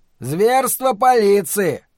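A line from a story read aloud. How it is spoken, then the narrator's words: Bold shout. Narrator (Russian): крикнул какой-то смельчак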